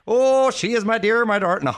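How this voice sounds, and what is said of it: Put-on Irish accent. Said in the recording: “that was my Irish accent.”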